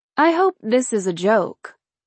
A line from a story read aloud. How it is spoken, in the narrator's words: I said dryly